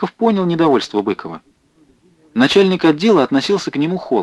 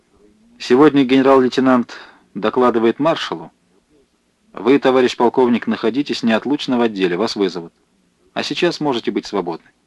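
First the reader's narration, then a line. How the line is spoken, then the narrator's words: Displeased voice. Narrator (Russian): недовольным голосом сказал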